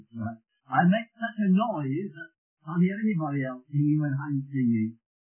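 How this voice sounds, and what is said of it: Birmingham English accent. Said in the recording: “my accent doesn't put you off ... Coming from Birmingham,”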